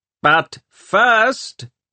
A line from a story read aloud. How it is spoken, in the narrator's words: he shouted